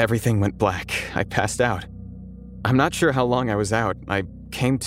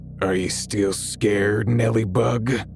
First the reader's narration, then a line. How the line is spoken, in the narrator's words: In the same deep, gravelly voice, he said